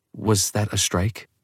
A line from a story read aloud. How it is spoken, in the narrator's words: Bella whisper to Esme